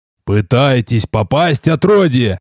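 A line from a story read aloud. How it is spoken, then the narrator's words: Growling. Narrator (Russian): зарычал я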